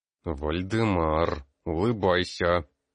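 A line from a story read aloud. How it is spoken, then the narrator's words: Hissed through teeth. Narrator (Russian): Сквозь зубы прошипел ректор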